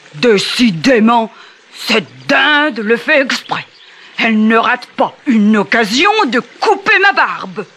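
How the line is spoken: Grumbling gnome. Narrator (French): bougonna le gnome

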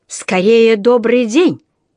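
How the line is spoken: Barked. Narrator (Russian): рявкнул сэр Арчибальд

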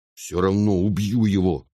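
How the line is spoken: Angry. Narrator (Russian): сердито сказал брат

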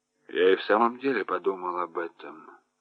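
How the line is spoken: Hoarse. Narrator (Russian): сказал комиссар хрипло

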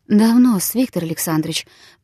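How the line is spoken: Barely audible voice. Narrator (Russian): проговорила она, наконец, едва слышным голосом

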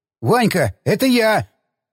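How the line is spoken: Yelled. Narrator (Russian): заорал молодой снайпер

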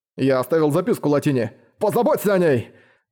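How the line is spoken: Shout, voice breaking. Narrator (Russian): Срывающимся голосом прокричал Дейл

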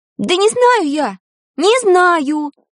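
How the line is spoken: Shouted. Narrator (Russian): крикнула Таня

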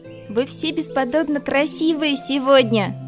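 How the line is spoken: Loud shout. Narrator (Russian): прокричал Чуи, чтобы все-все цветочки услышали его

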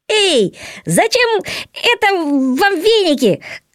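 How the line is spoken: Shouted, hare. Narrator (Russian): крикнул заяц

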